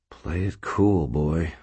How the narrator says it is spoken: whispered

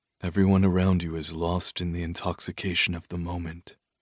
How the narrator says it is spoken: he said softly

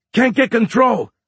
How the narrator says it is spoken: Mendez yelled over their channel

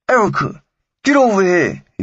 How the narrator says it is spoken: he shouted

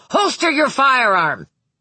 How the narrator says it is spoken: Hutter shouted for a third time

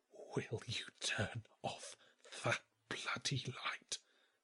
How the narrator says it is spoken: he whispered

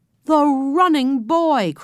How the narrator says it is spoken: cried the man

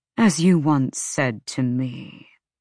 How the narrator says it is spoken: Micah replied smoothly

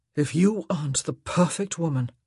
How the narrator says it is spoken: he groaned

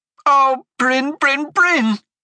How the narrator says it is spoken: she cried

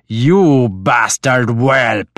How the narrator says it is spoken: he snarled

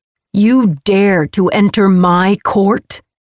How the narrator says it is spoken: Nyctos's voice boomed through the chamber, shaking the entire palace

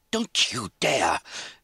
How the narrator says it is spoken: Lizzie said furiously

